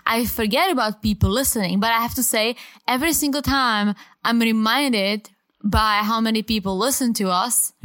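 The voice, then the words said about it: Speaks with a foreign accent. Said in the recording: “I really enjoyed ... accent ... I'm very self-conscious about my accent.”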